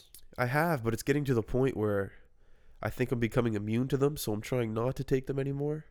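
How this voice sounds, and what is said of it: Stuffy, congested voice. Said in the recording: “I am stuffed up a bit here ... You sound angry.”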